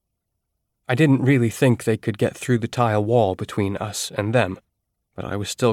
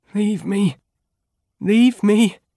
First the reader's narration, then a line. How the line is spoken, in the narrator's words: Freed moaned